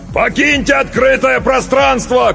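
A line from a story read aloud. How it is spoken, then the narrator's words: Shout. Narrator (Russian): крикнул он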